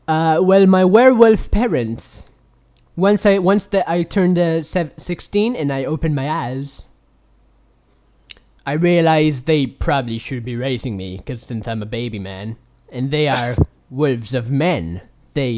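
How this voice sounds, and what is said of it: Weird put-on character voice. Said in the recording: “That's a really weird voice you have, but it sure isn't Italian. ... And it's constantly evolving.”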